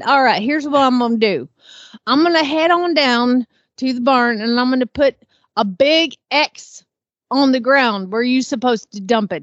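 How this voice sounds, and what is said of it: Put-on country accent. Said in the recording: “talk country”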